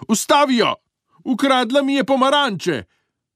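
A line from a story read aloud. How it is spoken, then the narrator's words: Old woman shouting. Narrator (Slovenian): starka zavpila ženi pri vodnjaku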